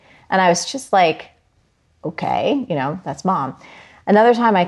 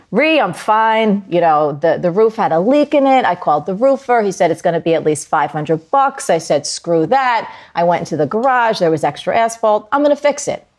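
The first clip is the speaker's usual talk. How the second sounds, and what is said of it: Strong New Jersey accent. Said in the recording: “in her very Jersey accent”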